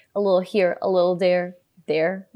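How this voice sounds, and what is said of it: Own accent slips through briefly. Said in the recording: “That was my accent jumping out.”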